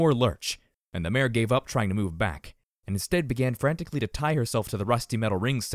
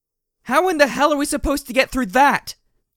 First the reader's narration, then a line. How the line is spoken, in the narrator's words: I shouted